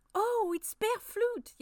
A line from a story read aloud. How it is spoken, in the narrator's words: Yasmina cried